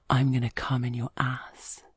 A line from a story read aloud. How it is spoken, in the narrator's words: whispers in my ear